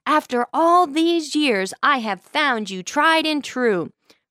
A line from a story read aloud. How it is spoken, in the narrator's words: his wife of 50 years yelled at the top of her lungs